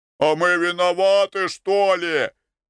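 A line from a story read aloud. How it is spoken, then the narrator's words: Shout. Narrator (Russian): крикнул кто-то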